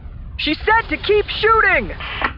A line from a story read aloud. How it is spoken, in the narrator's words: the voice said, and Leia heard him yell